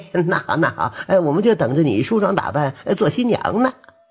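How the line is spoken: Hasty, ingratiating. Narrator (Chinese): 胡福赶紧陪着笑脸

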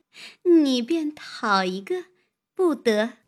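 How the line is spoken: Laughing. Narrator (Chinese): 那妇人也笑道

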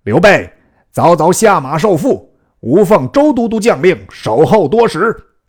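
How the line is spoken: Stern loud shout. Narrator (Chinese): 两员大将厉声高叫曰

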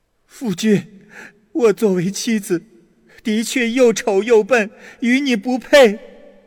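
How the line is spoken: Wife sobbing loudly. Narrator (Chinese): 他的妻子大哭着说

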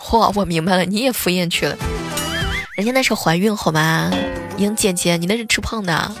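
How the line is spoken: Dawning realization, exclaiming. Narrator (Chinese): 朋友若有所悟的感叹一句

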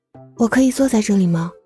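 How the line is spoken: Quiet question. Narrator (Chinese): 小声问道

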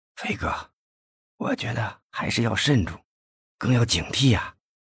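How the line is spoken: Quiet voice. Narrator (Chinese): 魏显波又小声的说

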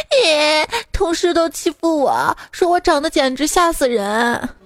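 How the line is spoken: Tearful woman complaining. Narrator (Chinese): 女同事泪流满面的跑来跟我哭诉

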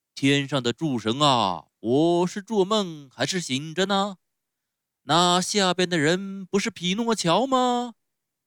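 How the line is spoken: Theatrical shout. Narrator (Chinese): 用演戏的腔调大叫起来

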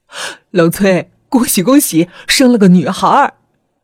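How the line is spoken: Smiling, pleased. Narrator (Chinese): 稳婆笑吟吟地对老崔说

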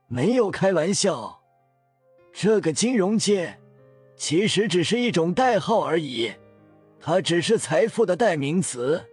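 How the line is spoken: Calm, smiling reply. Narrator (Chinese): 庄九淡淡的笑着回答道

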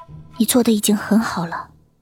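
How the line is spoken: Soft, comforting. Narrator (Chinese): 水清瑶轻声安慰道

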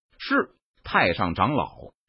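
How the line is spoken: Through gritted teeth. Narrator (Chinese): 神火门太上长老咬牙，他脸色一横道

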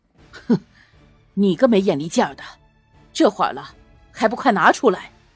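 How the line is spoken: Low scolding. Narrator (Chinese): 赵重正……低声斥道

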